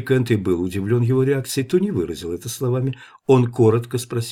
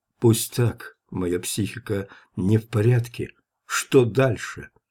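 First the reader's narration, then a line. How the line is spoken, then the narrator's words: Trembling voice. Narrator (Russian): он произнес дрожащим голосом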